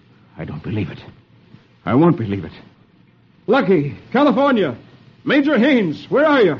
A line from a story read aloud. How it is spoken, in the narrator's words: Hoppy exclaims